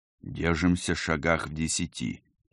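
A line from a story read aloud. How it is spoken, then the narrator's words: Said quietly. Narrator (Russian): негромко сказал Герман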